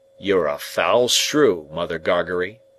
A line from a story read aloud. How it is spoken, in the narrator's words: growled the journeyman